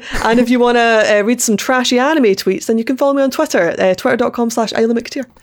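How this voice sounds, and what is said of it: Scottish accent. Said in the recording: “I'm Scottish, if you can't tell... like wondering like where the accent is, because I get Irish a lot, it's not, I'm Scottish.”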